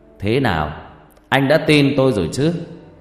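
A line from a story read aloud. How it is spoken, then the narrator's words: Laughing loudly. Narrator (Vietnamese): Thầy Năm cười to rồi bảo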